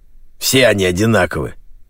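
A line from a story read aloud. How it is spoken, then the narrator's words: Angry. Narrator (Russian): зло произнес Джеймс Клик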